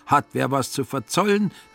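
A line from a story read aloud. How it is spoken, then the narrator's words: Unsuspecting call. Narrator (German): rief der Finanzer ahnungslos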